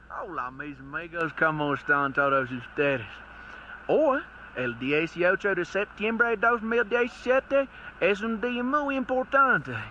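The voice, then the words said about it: Spanish with American Southern accent. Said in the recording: “he's speaking Spanish with a USA southern accent”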